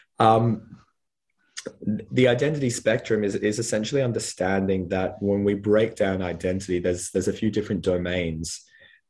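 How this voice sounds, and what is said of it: Husky voice from a cold. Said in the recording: “I'm recovering from a non-COVID upper respiratory tract infection at the moment. So my voice is a bit husky”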